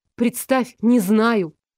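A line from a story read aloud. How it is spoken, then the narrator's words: Snapping. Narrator (Russian): огрызнулась я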